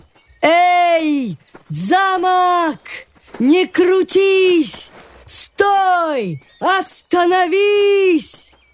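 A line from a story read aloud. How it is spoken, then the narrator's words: Shouted. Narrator (Russian): Маленький силач крикнул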